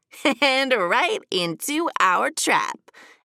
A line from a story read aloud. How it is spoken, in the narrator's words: added Bunny with a giggle